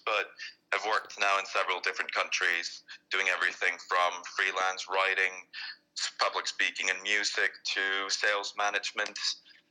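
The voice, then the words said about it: Icelandic accent. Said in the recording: “you'll probably notice my accent is a bit different from his, but I'm originally from Iceland”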